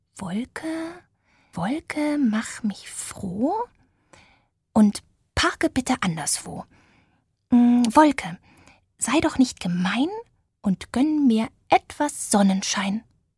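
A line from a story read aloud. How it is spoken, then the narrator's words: Quiet muttering to himself. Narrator (German): begann er leise vor sich hin zu murmeln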